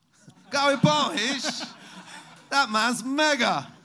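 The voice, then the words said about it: Put-on British accent. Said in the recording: “Does he nail the British accent? ... It's not terrible, right? ... It's a mixed reaction”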